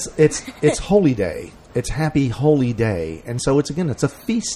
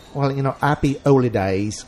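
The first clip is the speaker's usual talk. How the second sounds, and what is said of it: Bad put-on Cockney accent. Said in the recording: “my terrible old British ... Cockney accent.”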